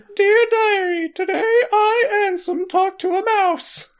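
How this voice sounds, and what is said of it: High Mickey Mouse cartoon voice. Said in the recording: “why does Ansem have Mickey Mouse voice?”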